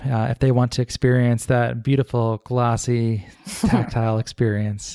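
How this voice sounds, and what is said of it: Smooth NPR-style radio voice. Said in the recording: “you can tell my voice turned in that nice NPR voice.”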